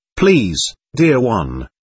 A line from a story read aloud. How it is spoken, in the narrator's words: he said